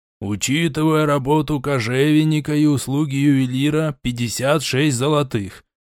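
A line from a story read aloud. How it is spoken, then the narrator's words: Plain. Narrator (Russian): ответил Нарим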